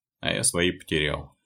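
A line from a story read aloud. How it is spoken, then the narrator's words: Sighing. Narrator (Russian): вздохнул Василий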